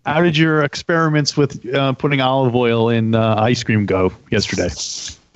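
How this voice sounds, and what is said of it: Put-on radio announcer voice. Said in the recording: “I'm how using my you, radio voice.”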